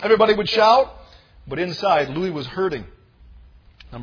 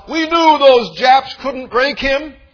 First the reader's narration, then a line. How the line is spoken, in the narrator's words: People shouted out